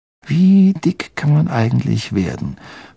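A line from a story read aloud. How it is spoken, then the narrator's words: Enthusiastic whisper. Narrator (German): flüsterte Ron begeistert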